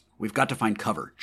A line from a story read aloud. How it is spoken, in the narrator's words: George said quickly